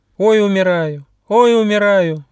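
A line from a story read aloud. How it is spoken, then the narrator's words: Increasingly loud screaming. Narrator (Russian): все громче кричал бяка Трак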